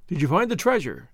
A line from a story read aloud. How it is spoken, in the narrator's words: the brigand asked eagerly